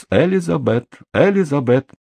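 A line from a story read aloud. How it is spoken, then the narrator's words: Laughing girl. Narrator (Russian): Девочка рассмеялась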